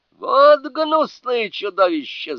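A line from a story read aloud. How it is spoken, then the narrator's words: Yelling. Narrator (Russian): заорал он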